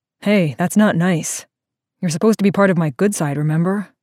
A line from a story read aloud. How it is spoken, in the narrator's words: Teddy rumbled